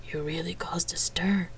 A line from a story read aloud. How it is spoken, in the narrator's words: he said in a low voice